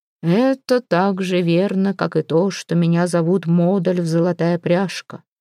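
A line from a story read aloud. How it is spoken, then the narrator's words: Grim reply. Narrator (Russian): мрачно ответил Ярл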